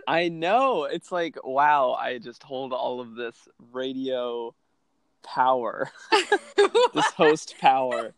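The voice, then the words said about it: Weird omniscient radio host voice. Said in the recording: “weird radio voice ... omniscient radio voice”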